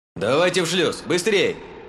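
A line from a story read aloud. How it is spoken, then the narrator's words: Booming armor speakers. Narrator (Russian): Прогремели динамики брони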